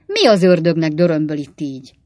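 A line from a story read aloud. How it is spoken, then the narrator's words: Angry question. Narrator (Hungarian): kérdezte az írnok mérgesen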